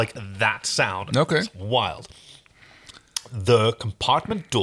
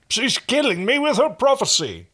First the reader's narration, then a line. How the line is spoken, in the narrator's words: the downcast Hynerian grumbled